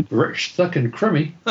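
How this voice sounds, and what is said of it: Exaggerated New Zealand accent. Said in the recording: “New Zealanders have really strange accents ... it's been a while since I spoke that accent.”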